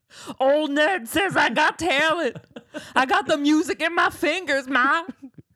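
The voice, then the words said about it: Poor attempt at Cajun accent. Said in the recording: “That is not a Cajun accent. We did not do a very good Cajun accent.”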